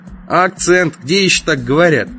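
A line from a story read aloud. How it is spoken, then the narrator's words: Snorting. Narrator (Russian): Я тоже фыркнул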